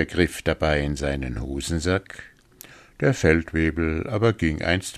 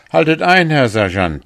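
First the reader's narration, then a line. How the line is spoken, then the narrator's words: Called out. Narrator (German): rief jetzt der Korporal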